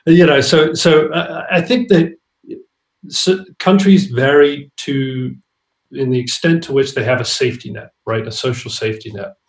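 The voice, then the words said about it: British accent. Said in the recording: “You sound more like a Brit than American”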